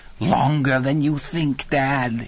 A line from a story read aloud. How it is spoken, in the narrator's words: cackled